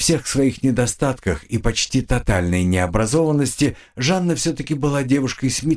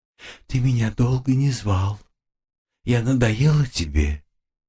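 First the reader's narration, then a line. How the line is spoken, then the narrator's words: Sad ghostly voice from behind. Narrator (Russian): моя призрачная соратница уже печально произнесла у меня за спиной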